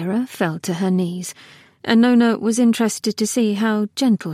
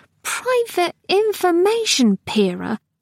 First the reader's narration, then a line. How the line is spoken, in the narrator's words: Nona was embarrassed at how her voice peeped when she said